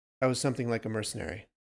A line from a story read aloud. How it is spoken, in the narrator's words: answered quickly